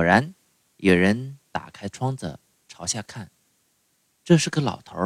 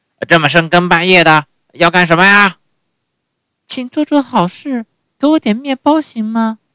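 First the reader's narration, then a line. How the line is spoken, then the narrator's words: Angry shouting. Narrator (Chinese): 气呼呼的大叫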